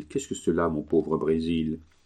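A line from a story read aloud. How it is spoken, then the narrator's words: Murmur. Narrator (French): murmura-t-il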